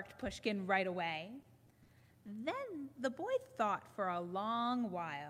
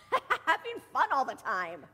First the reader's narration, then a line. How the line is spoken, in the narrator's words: laughed Gogol